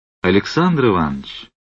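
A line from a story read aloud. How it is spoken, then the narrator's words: Gentle, smiling stranger. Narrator (Russian): произнес незнакомец, ласково улыбаясь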